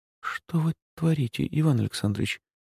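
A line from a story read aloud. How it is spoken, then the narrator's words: Woman's whispered question. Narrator (Russian): спросила женщина шепотом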